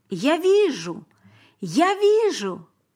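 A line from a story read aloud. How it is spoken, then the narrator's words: Shouting. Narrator (Russian): он кричал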